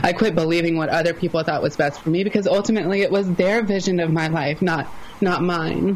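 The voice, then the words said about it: Southern American accent. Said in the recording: “I'm from the South, if you couldn't tell from my accent.”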